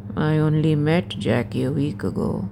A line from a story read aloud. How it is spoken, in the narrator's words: he mumbles